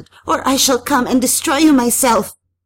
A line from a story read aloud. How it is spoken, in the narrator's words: I shouted